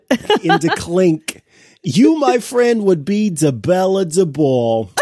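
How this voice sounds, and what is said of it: Bad put-on New York accent. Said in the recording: “the New York accent. ... The accent he puts on is so terribly, wonderfully bad.”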